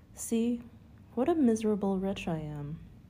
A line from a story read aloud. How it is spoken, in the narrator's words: said with a sigh